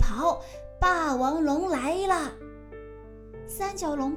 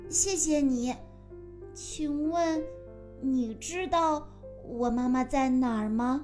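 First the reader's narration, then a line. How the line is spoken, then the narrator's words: Plain. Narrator (Chinese): 风神翼龙说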